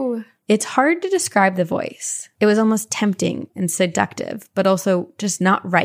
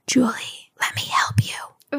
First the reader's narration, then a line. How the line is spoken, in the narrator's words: it whispered in my ear